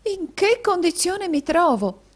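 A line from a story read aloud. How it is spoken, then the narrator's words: Exclamation. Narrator (Italian): esclamò la signorina Squeers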